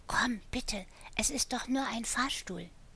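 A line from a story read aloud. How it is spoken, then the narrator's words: Whispered in ear. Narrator (German): flüsterte in sein Ohr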